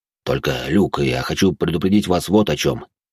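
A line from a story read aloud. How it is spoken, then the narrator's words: Serious tone. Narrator (Russian): серьезным тоном произнес Жуль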